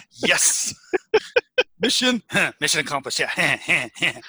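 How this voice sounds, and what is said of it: Impression sounding like a cartoon teenager. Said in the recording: “is that your impersonation of John Stewart's impersonation of George W. Bush? ... it sounds an awful lot like Butthead. ... Or Beavis”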